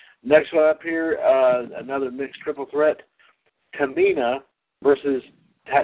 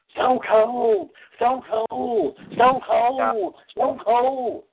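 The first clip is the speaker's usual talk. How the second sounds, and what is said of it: Imitates another person's voice. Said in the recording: “his Jim Ross impression ... That's the best way I can do it.”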